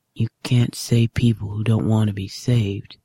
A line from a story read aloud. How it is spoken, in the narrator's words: John says softly across the comms